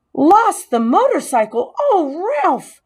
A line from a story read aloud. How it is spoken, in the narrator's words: cried his mother, genuinely alarmed